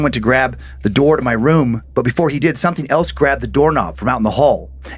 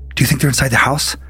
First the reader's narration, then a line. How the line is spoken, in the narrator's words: whispered